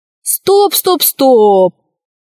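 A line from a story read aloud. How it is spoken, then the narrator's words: Shouting. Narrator (Russian): закричал Пашка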